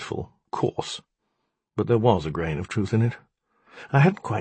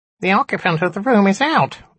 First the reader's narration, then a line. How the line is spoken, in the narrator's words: it squeaked again